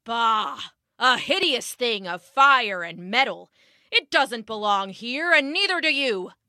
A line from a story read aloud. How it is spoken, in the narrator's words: the trees roared, and the forest shook with thunder